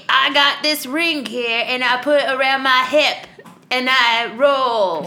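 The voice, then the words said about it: Poor put-on Australian accent. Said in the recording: “That was the worst Australian accent I've ever heard.”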